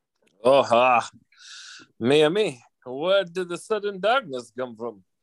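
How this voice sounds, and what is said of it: Put-on dialect voice. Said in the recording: “you can drop the dialect”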